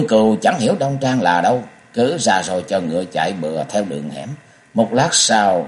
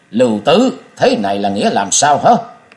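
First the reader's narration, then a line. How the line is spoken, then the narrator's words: Murderous shout. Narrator (Vietnamese): Hắn quát bằng một thanh âm đầy sát khí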